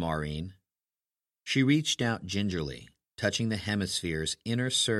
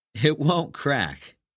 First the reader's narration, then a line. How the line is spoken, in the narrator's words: said, laughing at her caution